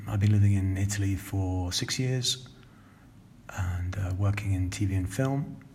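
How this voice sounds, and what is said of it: London, southern English accent. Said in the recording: “I'm speaking in my normal accent, which is a little bit London, a little bit south of the UK in general.”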